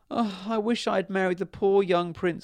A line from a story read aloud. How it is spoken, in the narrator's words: sobbed the princess